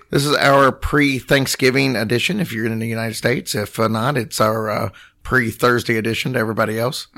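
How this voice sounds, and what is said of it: Voice not fully recovered, impaired. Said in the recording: “my voice is still not 100% back ... Your voice is really annoying, by the way ... After 3 weeks, it's really old.”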